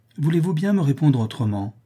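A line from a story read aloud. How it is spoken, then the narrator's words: Exclaimed. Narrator (French): s'écria Madame de Lignolle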